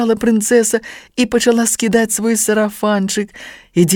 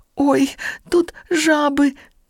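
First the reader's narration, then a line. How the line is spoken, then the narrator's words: Frightened squeak. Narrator (Russian): сполохано пропищала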